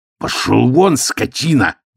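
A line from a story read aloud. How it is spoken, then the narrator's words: Growling. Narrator (Russian): зарычал Ганзалин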